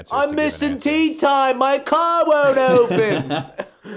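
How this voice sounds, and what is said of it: Put-on Australian accent. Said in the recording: “that's Australian accent. ... I had more Australian accents to do.”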